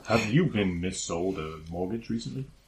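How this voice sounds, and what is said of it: Very deep advert-announcer voice. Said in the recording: “A man with a very deep voice.”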